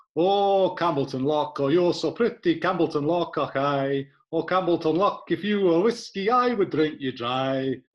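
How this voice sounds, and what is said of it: Sung with put-on Scottish accent. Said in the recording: “What do you think about that for a Scottish accent?”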